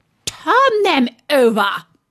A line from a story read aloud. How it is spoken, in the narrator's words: The Queen turned angrily away from him and said